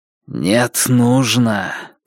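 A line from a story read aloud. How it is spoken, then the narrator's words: Hissing in foreign tongue. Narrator (Russian): прошипел звон на языке Раксура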